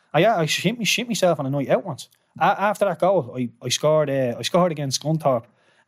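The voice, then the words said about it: Irish accent. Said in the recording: “the Irish accent in England”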